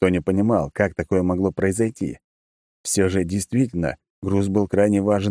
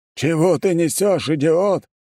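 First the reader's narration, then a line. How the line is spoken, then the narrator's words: Roaring boss. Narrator (Russian): взревел босс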